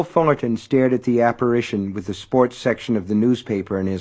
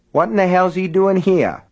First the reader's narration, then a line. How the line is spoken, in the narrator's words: Henry asked indignantly